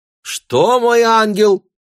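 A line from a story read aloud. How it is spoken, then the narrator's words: Shouted again. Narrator (Russian): крикнуть еще раз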